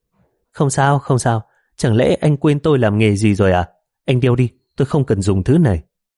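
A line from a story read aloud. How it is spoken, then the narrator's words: Smiling. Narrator (Vietnamese): Thôi Lệ Châu mỉm cười, nói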